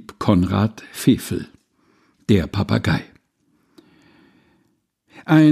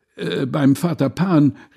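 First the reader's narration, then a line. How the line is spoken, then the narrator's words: Crowd shouting together. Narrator (German): rief Groß und Klein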